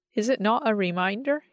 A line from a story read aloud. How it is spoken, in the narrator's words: He said, laughing happily